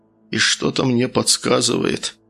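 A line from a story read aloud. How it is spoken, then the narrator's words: Mutter. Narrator (Russian): пробормотал Архип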